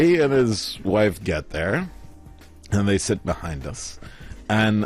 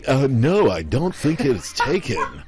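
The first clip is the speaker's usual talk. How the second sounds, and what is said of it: Exaggerated North American accent. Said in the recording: “in my most North American accent ever”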